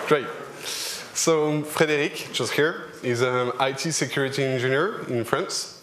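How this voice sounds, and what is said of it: French accent in English. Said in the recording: “we are French. ... So, sorry for the accent.”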